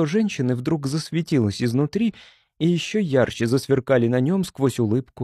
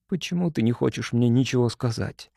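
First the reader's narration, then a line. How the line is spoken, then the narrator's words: Whispered question. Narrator (Russian): спросил он шепотом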